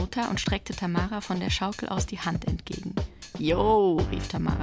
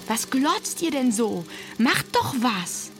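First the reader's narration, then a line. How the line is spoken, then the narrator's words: Furious scream. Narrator (German): schrie, wütend darüber, dass der auch sein Ziel verfehlt hatte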